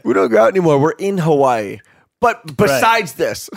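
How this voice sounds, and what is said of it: Mocking girlfriend voice with vocal fry. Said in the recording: “That is not how our girlfriends talk, by the way. We're making fun of other people's girlfriends ... I love vocal fry.”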